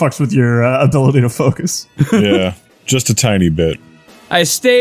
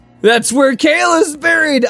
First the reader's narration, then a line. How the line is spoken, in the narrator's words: I exclaimed, getting upset